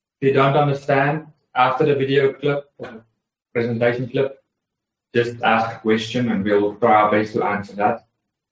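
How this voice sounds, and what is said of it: Heavy South African accent. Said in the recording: “I'm from South Africa. So I have a heavy accent.”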